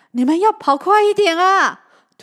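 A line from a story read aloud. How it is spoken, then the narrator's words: Shouting. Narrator (Chinese): 他大喊着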